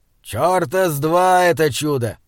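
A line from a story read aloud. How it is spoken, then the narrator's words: Gruff. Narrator (Russian): Грубо сказал Изгримнур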